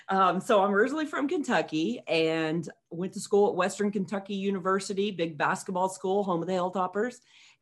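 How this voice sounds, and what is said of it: Slight Kentucky accent. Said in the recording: “You probably picked up on a little bit of an accent. ... A little bit.”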